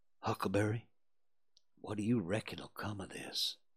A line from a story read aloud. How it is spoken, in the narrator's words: Tom whispered